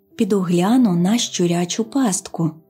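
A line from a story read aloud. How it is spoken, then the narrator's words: Plain. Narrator (Ukrainian): сказала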